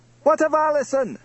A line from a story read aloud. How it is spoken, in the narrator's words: cried the chief of the Camerons